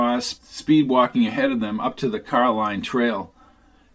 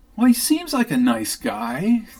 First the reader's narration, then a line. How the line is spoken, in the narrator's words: said Kathryn, giggling